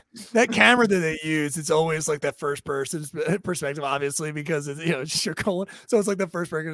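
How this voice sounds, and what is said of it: Usual voice. Nothing is said of it.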